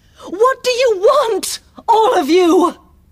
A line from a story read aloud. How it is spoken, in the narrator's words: cried Milady, afraid